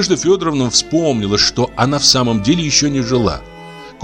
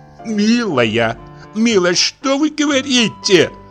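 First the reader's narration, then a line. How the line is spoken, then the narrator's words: Startled cry. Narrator (Russian): вскрикнула Марья Константиновна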